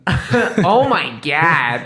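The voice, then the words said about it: Put-on American accent. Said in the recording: “It'd be funnier if you said it in American accent.”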